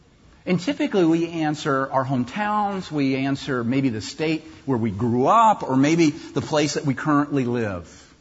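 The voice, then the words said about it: Non-local accent. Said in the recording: “if you have an accent like mine, you know it's not from around here”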